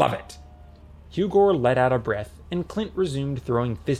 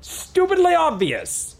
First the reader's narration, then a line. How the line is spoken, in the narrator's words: cried Clint